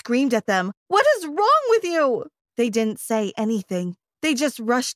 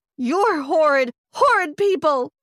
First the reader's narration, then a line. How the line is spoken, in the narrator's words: I yelled at them